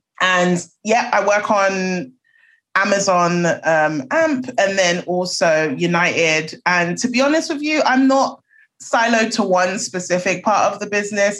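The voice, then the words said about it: British London accent. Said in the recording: “I have a British accent, so as you can tell, I'm a Londoner.”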